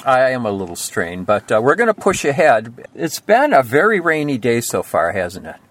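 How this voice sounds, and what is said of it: Hoarse, strained voice. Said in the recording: “hear it in your voice. It's sounding a little hoarse, a little strained.”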